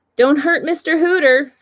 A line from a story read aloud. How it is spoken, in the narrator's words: yelled from the vicinity of the front foyer